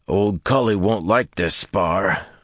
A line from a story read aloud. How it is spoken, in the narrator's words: the bigger man growled